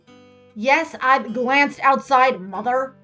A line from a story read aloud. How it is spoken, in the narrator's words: Megan snapped, annoyed